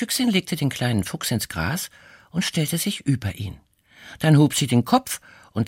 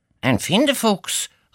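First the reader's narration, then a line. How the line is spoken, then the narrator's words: Badger calling out. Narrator (German): rief der Dachs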